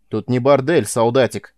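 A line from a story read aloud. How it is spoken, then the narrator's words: Gruff bark. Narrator (Russian): рявкнул сержант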